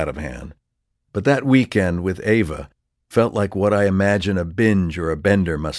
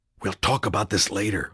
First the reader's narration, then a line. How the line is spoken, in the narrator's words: whispered